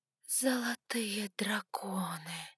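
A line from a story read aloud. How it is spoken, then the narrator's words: Whisper. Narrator (Russian): прошептала я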